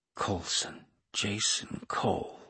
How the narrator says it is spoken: hissed Kate

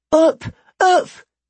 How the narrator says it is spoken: exclaimed the other

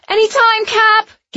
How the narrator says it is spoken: Gilly yelped

